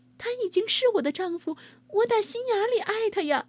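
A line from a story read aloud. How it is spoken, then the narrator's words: Desperate pleading. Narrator (Chinese): 新娘苦苦哀求父亲说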